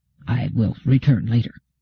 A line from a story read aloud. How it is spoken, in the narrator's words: said in a low voice